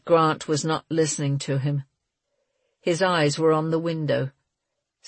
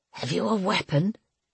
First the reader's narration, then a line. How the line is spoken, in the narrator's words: he whispered